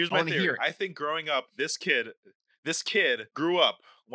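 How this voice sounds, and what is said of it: Usual voice. Nothing is said of it.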